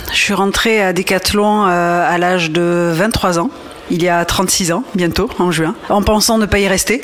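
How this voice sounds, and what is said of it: Southwest French Landes accent. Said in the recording (French): “je suis landaise, comme un accent l'indique évidemment”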